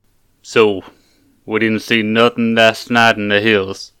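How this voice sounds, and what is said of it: Put-on character accent. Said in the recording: “It's all in character, though. ... I love the accent so much.”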